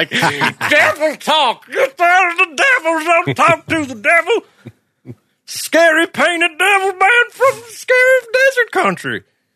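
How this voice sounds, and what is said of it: Cheery drunk friar character voice. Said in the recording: “terrible Cosby impersonation. ... That's not my Cosby. That is my 100% accurate Friar Tuck from Robin Hood Prince and Thief voice.”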